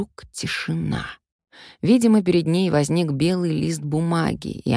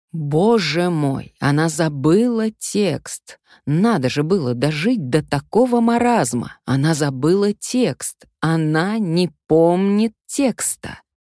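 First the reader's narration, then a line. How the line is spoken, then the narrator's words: Loud hissing crowd. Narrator (Russian): все громко шипят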